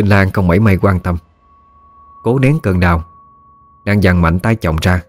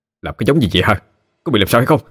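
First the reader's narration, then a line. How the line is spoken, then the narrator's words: Startled shout. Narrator (Vietnamese): Trọng Nhân giật mình, quát lên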